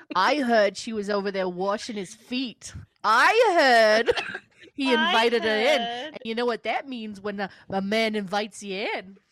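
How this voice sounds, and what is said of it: Put-on New Jersey accent. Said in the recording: “I was doing the New Jersey story ... my impression of them talking about Mary Magdalene in New Jersey”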